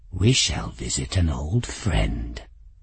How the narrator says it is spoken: he said quietly

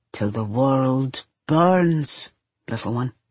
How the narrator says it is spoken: he murmurs against her hair

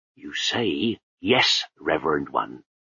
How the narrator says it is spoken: he growled

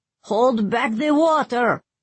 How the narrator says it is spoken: the new Brevnan bellowed from behind Safi

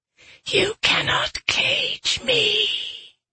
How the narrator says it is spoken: Whisper seethed

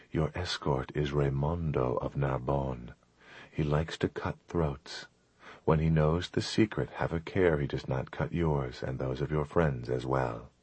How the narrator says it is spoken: she whispered

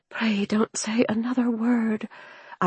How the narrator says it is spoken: I whispered, wilting with humiliation

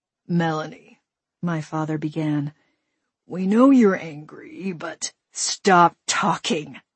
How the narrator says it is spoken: I growled at him

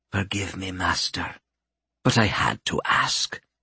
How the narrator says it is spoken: she whispered

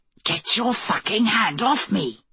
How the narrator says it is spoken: a voice hissed from the manhole

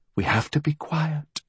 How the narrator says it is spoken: she whispered

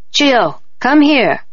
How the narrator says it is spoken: Auntie called out to me

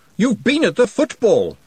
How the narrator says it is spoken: snapped Glenda

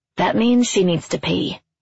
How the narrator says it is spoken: Deb says

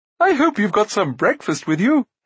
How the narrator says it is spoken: he added

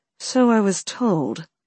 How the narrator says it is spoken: the Duchess muttered

